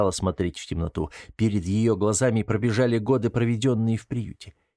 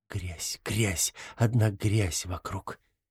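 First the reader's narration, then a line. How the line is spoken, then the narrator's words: Whisper. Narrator (Russian): прошептали ее губы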